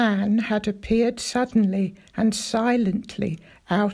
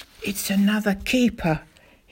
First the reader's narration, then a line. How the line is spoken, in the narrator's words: he whispered